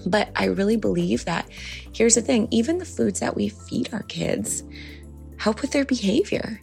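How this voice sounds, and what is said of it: Soft whispered speech. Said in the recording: “As you can tell, I'm sort of whispering because everybody in the house is sleeping still.”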